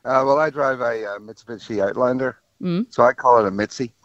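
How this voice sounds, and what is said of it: Irish accent. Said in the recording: “You've got an Irish accent there, don't you?”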